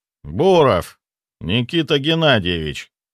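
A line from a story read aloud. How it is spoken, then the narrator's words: Lazy drawl. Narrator (Russian): лениво протянул он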